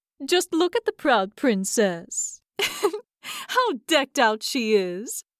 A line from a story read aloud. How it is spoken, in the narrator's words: They cried and laughed